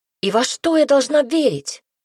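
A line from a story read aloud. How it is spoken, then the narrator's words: Exclaimed. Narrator (Russian): воскликнула она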